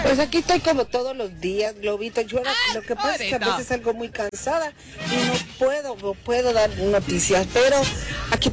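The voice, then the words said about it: Yucatecan Spanish accent. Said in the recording (Spanish): “con el tono yucateco ... acento yucateco ... tu acento yucateco”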